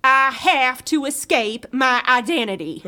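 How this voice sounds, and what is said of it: Put-on accent. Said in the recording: “there's that accent again ... drop the accent.”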